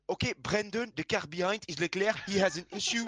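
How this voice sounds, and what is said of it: Imitated French-accented race engineer. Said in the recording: “He's the one with the bit of the French accent ... With the French accent ... Can you only talk in that accent for the rest of the podcast, please? ... You also sound very much like the Renault technical director. ... Cyril Abbas.”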